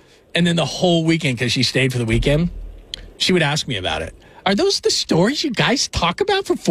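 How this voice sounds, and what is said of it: Usual voice. Nothing is said of it.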